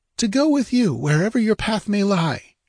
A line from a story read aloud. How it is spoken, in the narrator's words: she cried